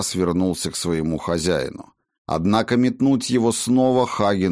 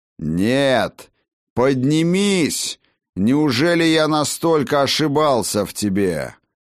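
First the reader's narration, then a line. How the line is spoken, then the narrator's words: Thunderous voice inside head. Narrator (Russian): прогремел чей-то страшной силы голос внутри черепа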